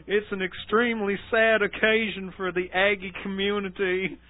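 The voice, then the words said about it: Put-on Texas accent. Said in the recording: “Let's do all the quotes in a Texas accent.”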